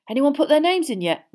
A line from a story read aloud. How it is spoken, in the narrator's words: Ron asked a third-year girl eagerly